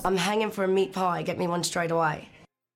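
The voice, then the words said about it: Good put-on Australian accent. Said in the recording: “you bunged on an Australian accent ... That is really good.”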